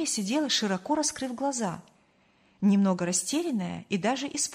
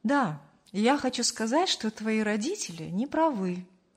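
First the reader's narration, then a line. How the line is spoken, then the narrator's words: Calm. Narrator (Russian): спокойно закончил фразу Аркадий Петрович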